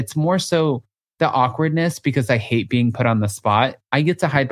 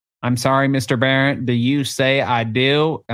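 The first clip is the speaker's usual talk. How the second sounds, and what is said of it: Put-on southern accent. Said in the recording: “When did I get this southern accent?”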